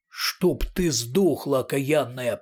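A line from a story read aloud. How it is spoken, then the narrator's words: Growl. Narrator (Russian): прорычал Портос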